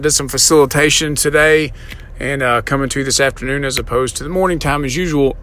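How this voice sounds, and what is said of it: Slightly hoarse voice. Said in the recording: “voice is a little hoarse ... why my voice is a little hoarse”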